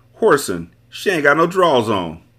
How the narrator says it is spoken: Tony yelled to me

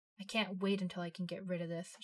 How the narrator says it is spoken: muttered

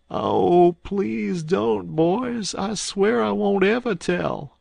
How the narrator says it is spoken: I heard a voice wail out and say

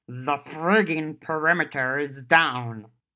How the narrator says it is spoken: Gashwad growled

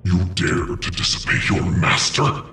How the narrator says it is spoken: Julio said in an inhuman voice

